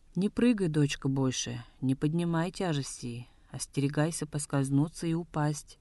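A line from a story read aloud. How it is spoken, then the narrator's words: Gentle earnest urging. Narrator (Russian): ласково внушала Янжиме Даролга Табре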